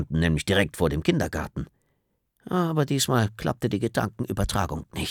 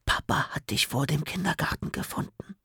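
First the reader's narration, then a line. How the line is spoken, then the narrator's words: Happy whisper in ear. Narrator (German): flüsterte mir Leo glücklich ins Ohr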